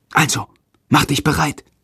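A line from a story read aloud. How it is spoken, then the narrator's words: Whispered. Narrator (German): flüstert Jendrik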